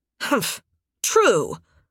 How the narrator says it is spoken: Sunstorm grunted out

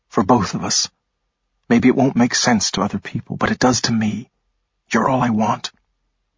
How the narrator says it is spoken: he said gently

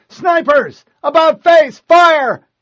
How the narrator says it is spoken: McKay yelled

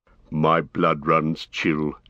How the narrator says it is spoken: said Gimli, his voice fell dead

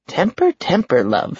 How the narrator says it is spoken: she purred

